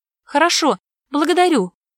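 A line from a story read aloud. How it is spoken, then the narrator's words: Hurried shout. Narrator (Russian): выкрикнула торопясь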